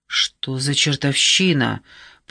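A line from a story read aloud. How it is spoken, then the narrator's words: Muttering. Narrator (Russian): пробормотал кто-то из рейнджеров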